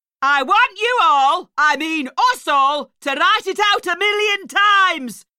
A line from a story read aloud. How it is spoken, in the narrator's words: she barked